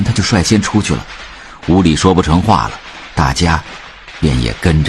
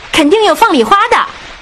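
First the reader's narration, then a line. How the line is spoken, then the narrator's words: Loud. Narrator (Chinese): 周月大声地说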